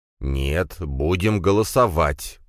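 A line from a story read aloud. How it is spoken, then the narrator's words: Through gritted teeth. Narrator (Russian): процедил брат Драгунова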